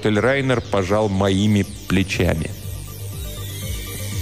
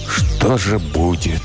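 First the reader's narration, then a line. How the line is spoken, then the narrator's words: Whispering. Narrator (Russian): прошептал я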